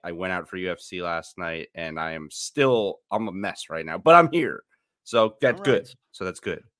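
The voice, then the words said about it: Raspy voice. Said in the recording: “my voice sounds raspy ... Somehow I'm still hungover”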